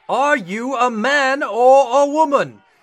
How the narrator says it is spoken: the veins in the captain's forehead bulged as he boomed

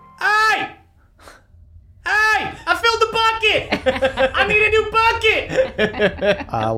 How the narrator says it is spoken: Big Bev just screams

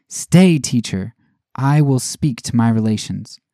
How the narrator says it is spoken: Kunik cried after him

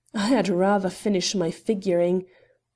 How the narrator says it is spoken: growled another, in whose grating tones no echo remained of Hector Westonor's formerly honeyed voice

